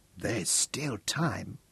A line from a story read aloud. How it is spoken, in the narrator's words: Peter whispered